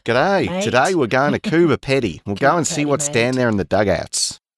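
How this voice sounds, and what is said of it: Put-on Australian accent. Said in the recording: “say it almost with an Australian accent.”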